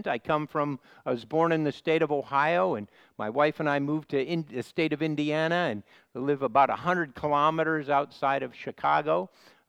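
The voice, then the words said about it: Midwestern American accent, slightly nasal. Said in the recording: “I have a bit of a Midwestern accent... a bit of a nasal accent”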